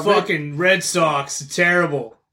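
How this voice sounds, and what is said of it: Poor put-on Boston accent. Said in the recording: “This fucking accent's terrible. I don't know what I'm doing.”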